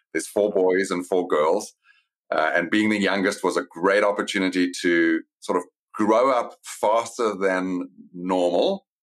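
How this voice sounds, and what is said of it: South African accent. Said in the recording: “I know you grew up in South Africa. That's from the accent straight away.”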